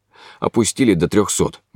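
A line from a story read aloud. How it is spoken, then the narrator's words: Gloomy. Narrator (Russian): мрачно сказал он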